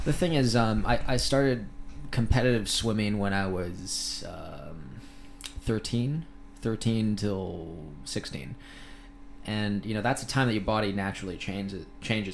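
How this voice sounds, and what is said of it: American-sounding accent. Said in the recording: “You seem completely Americanized. ... that westernized accent going on. ... that sort of Americanish accent”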